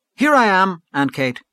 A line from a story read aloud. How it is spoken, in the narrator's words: cried Gabriel with sudden animation